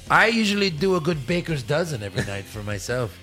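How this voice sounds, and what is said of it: Comedic film character's put-on accent. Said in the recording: “Why are you talking like Nacho Libre? Why are you talking like Jack Black? ... this accent”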